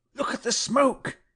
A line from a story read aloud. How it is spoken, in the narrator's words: he cried